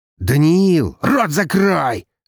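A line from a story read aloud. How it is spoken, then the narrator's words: Barking. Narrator (Russian): рявкнул младший Волков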